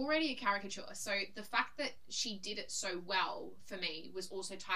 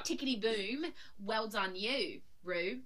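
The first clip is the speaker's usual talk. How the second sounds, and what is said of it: Put-on Australian accent. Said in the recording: “That was my impersonation of Taste's Australian accent.”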